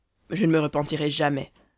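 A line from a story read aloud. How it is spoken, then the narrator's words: Resonant, proud voice. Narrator (French): dit le meurtrier d'une voix sonore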